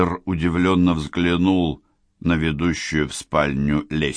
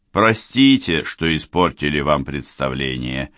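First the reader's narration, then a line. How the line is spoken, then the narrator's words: Cold. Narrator (Russian): холодно отозвался Райм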